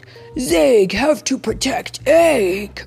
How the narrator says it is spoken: growled the dinosaur truck

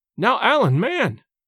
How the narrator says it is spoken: cried James

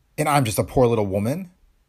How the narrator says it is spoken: she said sharply

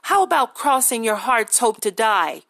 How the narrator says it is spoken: Henny laughed

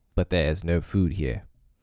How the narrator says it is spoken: said Father Wolf, stiffly

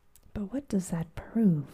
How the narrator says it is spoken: Challenger asked, in a gentle, persuasive tone

